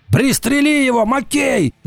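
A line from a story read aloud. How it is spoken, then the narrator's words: Shouting. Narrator (Russian): закричал Уртона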